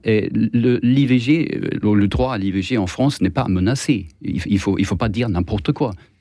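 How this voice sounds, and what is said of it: Swedish accent speaking French. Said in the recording (French): “j'ai un accent étrange, c'est parce que je suis suédois”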